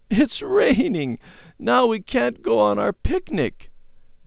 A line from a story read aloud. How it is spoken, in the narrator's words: she sobbed